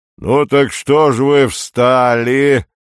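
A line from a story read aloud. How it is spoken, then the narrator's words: Deep rolling voice. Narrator (Russian): Глубоким раскатистым голосом сказал вожак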